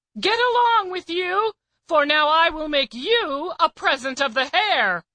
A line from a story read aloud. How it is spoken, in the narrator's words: The hunter, sorely against his will, called out and said